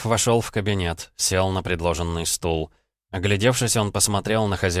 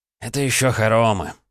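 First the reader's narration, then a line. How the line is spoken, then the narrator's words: Sighing. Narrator (Russian): вздохнул Воронов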